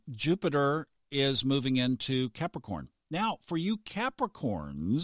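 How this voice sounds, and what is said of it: Usual voice. Nothing is said of it.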